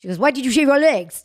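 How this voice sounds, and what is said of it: French Tunisian accented mother impression. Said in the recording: “I play my mother who talks like this ... like she's French, Tunisian Jew”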